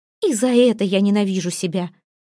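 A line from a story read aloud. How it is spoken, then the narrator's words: Fervent exclamation. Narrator (Russian): Пылко воскликнула Эйра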